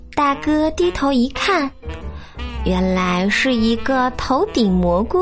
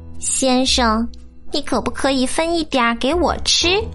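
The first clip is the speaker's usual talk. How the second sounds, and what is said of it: Thin, high-pitched little voice. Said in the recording (Chinese): “一个尖细的声音说”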